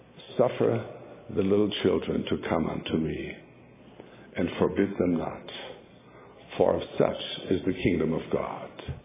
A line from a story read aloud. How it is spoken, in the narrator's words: the Spirit whispered